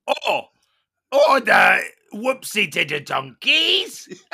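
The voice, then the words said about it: Frank Spencer character voice. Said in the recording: “your best celebrity impression? ... I'm going to do it in my Frank Spencer”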